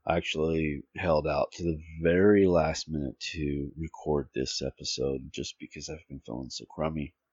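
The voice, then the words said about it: Shaky, unwell-sounding voice. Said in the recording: “my voice sounds a little shaky. I'm not feeling well.”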